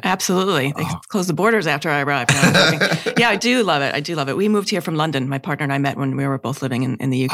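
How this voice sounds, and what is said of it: New York Long Island accent. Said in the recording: “so that's a Hosking House accent, is it? ... originally came from Long Island, New York.”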